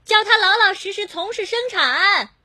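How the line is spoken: Shouting. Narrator (Chinese): 那人就到窗口喊

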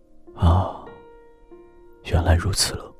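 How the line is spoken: Soft sigh. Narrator (Chinese): 轻轻感叹一声

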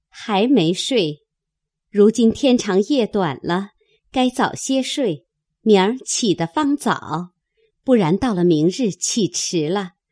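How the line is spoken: Cheerful. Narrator (Chinese): 林之孝家的 笑说

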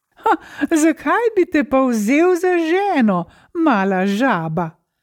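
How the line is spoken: Mocking laugh. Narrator (Slovenian): se je zasmejal princ

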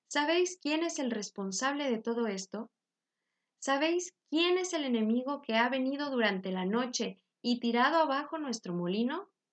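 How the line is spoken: Calm voice. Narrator (Spanish): dijo con voz tranquila

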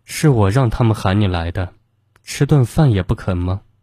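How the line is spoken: Cold. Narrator (Chinese): 方婉婉却冷冷的说

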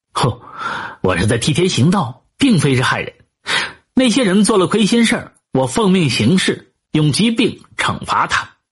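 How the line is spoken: Laughing, self-assured. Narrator (Chinese): 这十一郎啊，一笑着就说

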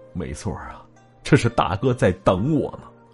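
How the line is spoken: Sighing. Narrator (Chinese): 袁博叹息了一声

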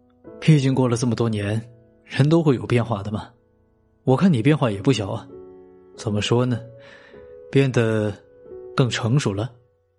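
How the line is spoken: Smiling reply. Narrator (Chinese): 华文天笑着回答

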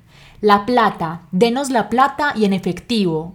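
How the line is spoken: Shouted while kicking. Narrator (Spanish): gritaban mientras le daban patadas

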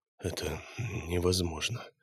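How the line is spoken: Quiet speech. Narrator (Russian): тихо проговорил Илья

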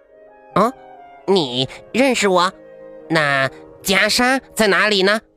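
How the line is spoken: Loud laughter. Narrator (Chinese): 食人花哈哈大笑

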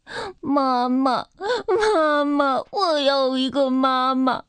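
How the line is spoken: Sad crying. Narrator (Chinese): 秋秋伤心极了，他开始哭起来

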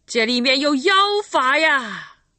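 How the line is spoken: Sinister shout from crowd. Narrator (Chinese): 人群里有个阴险的声音喊道

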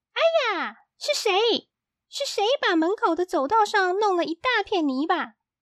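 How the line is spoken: Shrill shout. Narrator (Chinese): 尖声高叫起来

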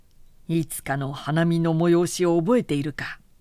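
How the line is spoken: Laughing. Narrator (Japanese): と笑いながら言った

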